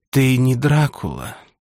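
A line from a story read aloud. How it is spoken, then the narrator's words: Disappointed whisper. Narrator (Russian): прошептала Милена, даже немного разочарованно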